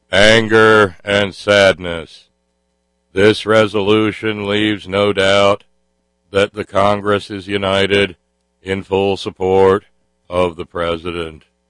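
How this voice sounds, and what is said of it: Impression of Senator John Kerry. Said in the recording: “my Senator Kerry impression”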